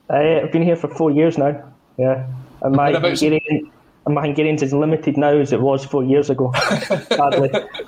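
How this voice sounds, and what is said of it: Scottish accent. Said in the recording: “he's not a Hungarian native, it's definitely a Scottish accent”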